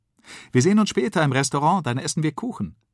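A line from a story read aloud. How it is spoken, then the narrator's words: Mother calling after. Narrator (German): ruft Mama ihnen nach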